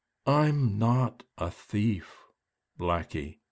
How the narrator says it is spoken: she said so slowly

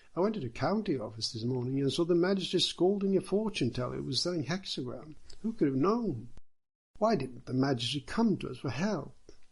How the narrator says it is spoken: They all cried, one of them sighed

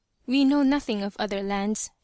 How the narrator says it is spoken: she said

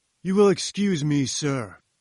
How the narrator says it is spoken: boomed Challenger

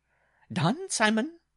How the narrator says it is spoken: the bride cried

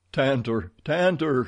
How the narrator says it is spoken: cried

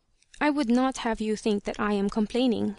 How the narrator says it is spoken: said hastily, as if she was afraid I would get that impression

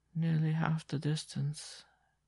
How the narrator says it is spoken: she repeated in a lifeless voice

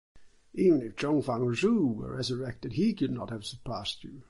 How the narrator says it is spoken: exclaimed the astonished commissioner

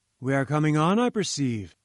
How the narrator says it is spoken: said he

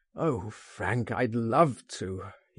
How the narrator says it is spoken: groaned

